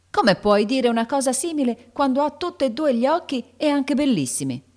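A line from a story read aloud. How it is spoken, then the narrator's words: Angry shout. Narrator (Italian): gridò Joe, che montava subito in furia se sentiva far qualche osservazione spiacevole sul conto del suo amico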